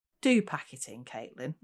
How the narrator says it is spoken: Nick said wearily

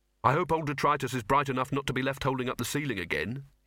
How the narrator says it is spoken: he said

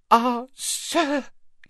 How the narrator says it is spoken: he gasped

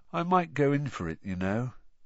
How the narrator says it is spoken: Ron said sleepily through the darkness

